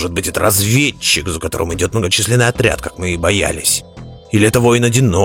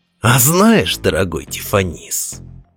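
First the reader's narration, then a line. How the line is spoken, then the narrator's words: Purring. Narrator (Russian): промурлыкал Улгулу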